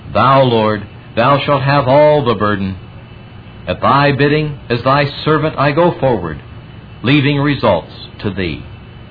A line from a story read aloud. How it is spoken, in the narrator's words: A great sense of relief flooded over him as he cried